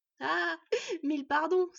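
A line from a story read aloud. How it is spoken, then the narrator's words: Boy apologizing, laughing heartily. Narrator (French): s'excusa le garçon en riant tant et plus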